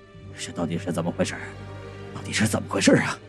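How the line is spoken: Anxious muttering to himself. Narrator (Chinese): 中年男人呢焦急地 自言自语

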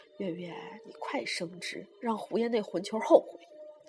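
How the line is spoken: Old woman muttering. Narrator (Chinese): 老太太嘀咕

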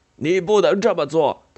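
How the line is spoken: Shouting. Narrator (Chinese): 他叫嚷着

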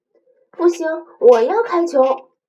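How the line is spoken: Shouting. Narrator (Chinese): 路易冲过来叫道

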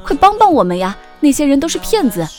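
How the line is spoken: Anxious shout. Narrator (Chinese): 我着急地跟车上的人喊

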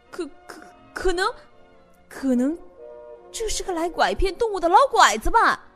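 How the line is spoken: Sudden stammering cry. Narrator (Chinese): 忽然，他结结巴巴的叫了起来

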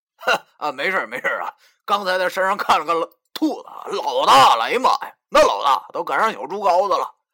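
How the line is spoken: Loud. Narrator (Chinese): 大声说道

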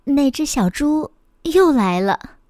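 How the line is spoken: Soft. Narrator (Chinese): 秘书轻声地说

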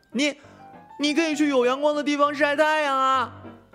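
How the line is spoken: Yelling. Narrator (Chinese): 他这番吼叫

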